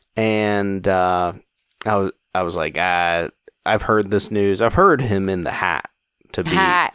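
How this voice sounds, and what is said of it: Thick accent. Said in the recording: “my thick accent... This heat is really bringing it out for you.”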